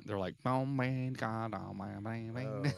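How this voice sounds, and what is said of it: Southern twangy accent. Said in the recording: “it's a Southern kind of twangy like accent ... That's what it sounds like.”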